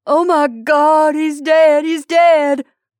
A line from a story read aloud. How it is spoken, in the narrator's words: wailed the brother